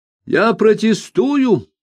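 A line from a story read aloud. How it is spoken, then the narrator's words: Exclaimed. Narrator (Russian): воскликнул Сетембрини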